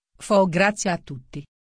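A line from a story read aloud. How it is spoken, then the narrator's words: King speaking quietly. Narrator (Italian): il re diceva a voce bassa a tutti i condannati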